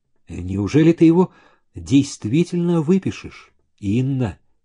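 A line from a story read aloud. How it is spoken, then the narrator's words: Quiet. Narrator (Russian): тихо проговорил Зеленин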